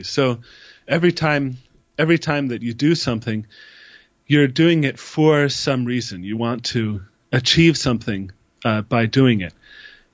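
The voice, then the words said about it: Voice with a cold, coughing. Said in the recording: “I have a bit of a cold. That's why I'm coughing the whole time.”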